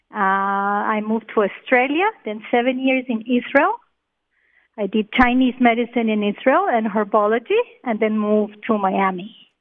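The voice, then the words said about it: Colombian accent. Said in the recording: “Am I hearing another accent? ... I'm from Colombia.”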